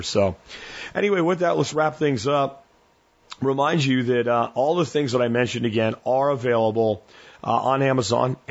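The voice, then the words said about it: Faded, strained hoarse voice. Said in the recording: “I'm sorry if I'm not like as explosive as I usually am with excitement. I'm trying to get through this show without losing my voice, and you can hear it has faded.”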